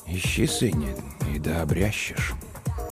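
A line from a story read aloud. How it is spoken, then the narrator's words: Very quiet, to himself. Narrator (Russian): Он ответил тихо-тихо, словно самому себе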